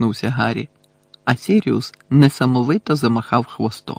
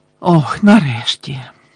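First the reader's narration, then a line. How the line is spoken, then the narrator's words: Relieved sigh. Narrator (Ukrainian): полегшено зітхнула місіс Візлі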